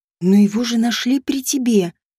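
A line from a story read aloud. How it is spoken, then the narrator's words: Whispered reminder. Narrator (Russian): напомнила я шепотом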